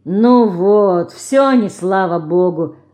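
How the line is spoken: Grumbling. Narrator (Russian): заворчал Никич

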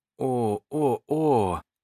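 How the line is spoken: Strained, barely squeezed out. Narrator (Russian): только и могла выдавить из себя Джеки

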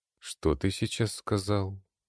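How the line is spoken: Calm voice, homeowner. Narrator (Russian): спокойным голосом произнес хозяин дома

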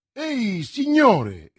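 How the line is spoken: Exclaiming. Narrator (Italian): esclamò

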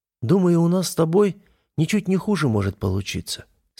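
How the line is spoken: Calm. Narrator (Russian): спокойно произнесла веганка

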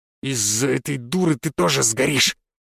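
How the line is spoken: Angry, through gritted teeth. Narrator (Russian): процедил он с гневом

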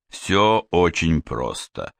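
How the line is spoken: Bored voice. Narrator (Russian): скучным голосом продолжал Сварог

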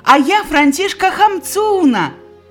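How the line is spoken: Exclaiming. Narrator (Belarusian): усклікнула яна

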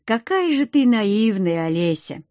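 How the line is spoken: Spoken after laughing. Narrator (Russian): вымолвил Риот, отсмеявшись

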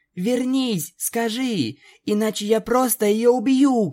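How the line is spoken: Shouting. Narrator (Russian): кричала Твайлайт

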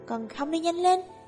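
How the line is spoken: Irritated call. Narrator (Vietnamese): Minh Viễn buồn bực kêu lên một tiếng

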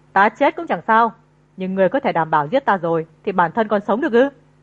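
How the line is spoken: Laughing loudly while choked. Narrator (Vietnamese): Nhai Tý cất giọng cười lớn

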